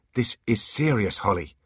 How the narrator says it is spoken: snapped Artemis

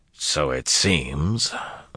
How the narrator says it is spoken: Valda answered dryly

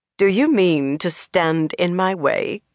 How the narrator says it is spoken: Cadswain asked, just as coldly

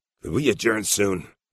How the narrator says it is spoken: Addison Doug said in a hoarse, strangling voice

